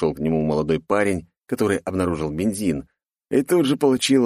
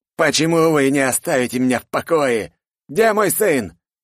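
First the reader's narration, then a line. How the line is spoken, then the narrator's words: Man barking angrily. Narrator (Russian): рявкнул мужик на ошарашенного парня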